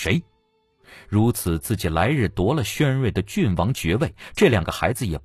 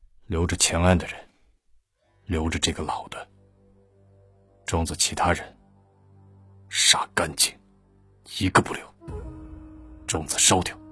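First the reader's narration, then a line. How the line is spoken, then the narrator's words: Deep breath, low voice. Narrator (Chinese): 他深呼吸了下，低声道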